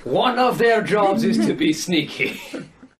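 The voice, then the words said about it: Bad French accent with Scottish tinge. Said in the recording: “as close of a French accent as I can get it. And I do a horrible French accent because I'm Scottish ... In the worst Scottish-French accent ever ... I don't even recognize it as French because it's so bad ... Sounds almost Quebecois, actually.”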